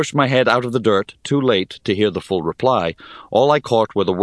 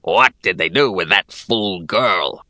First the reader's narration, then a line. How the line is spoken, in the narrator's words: rasped another goblin